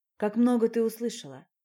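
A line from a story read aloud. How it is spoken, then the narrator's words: Sigh. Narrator (Russian): вздохнул Ярослав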